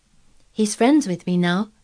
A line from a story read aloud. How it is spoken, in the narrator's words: said Mary